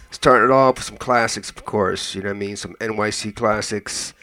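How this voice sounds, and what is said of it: Hoarse, strained voice. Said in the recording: “I'm losing my voice... I know I sound a little bit hoarse, not as bad as I did... you're going to hear my voice coming in and out”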